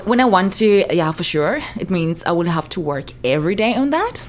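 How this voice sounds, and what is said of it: Speaks English with a noticeable accent. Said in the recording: “nice accent too ... I have an accent too.”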